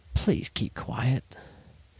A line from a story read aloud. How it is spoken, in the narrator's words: He murmured